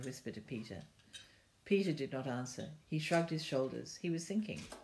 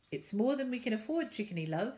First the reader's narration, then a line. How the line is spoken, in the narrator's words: said Mother cheerfully